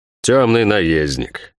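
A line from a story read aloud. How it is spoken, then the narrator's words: Snorted. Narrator (Russian): фыркнул герцог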